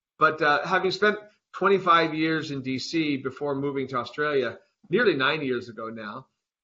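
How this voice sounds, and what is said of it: American (Arizona) accent. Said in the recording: “there's a lot more Arizona in my accent than Australia”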